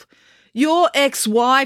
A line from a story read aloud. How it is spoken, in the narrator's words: snapped April